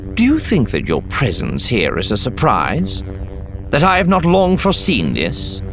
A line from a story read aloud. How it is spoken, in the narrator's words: Mulgus chuckled, the sound loud off the high ceiling